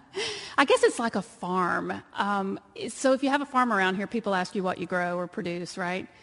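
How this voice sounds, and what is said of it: Texas twang accent. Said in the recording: “you can tell by the twang that I'm from Texas”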